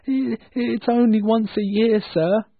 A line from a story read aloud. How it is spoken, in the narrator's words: begged Bob